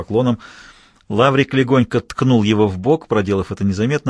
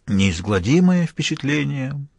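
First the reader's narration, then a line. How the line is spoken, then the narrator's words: Sad repetition. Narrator (Russian): повторил Мазур грустно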